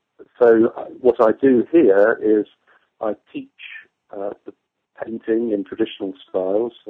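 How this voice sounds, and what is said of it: English accent. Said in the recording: “I moved to New Hampshire from England ... I don't have an American accent”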